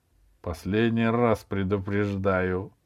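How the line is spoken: Through gritted teeth. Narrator (Russian): сквозь зубы произнесла Аделаида

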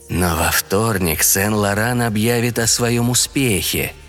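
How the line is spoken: Soft remark. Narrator (Russian): мягко заметил голос

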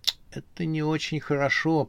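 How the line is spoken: Muttering to herself. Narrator (Russian): пробормотала она про себя

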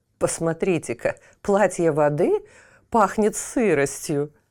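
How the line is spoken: Mocking. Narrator (Russian): насмешливо произнес огонь

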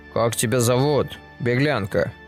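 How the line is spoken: Chief trying to sound menacing. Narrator (Russian): Главный старается говорить грозно

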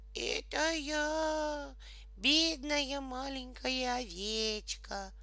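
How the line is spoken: Thin squeaky disguised voice. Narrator (Russian): Тонким чужим голосом пропищал волк

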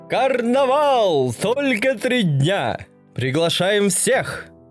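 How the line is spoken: Many voices shouting. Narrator (Russian): кричали они на разные голоса

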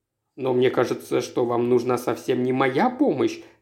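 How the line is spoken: Plain. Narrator (Russian): сказал Роберт

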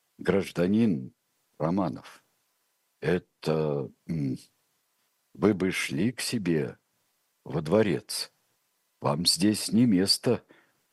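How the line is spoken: Halting mumble. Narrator (Russian): пробормотал Антонов Овсеенко, с трудом подбирая слова

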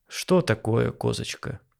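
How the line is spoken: Weary reply. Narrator (Russian): усталым голосом ответил Болдырев, предчувствуя трудный разговор

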